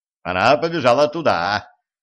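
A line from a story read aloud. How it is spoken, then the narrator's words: Shout. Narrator (Russian): крикнул Денис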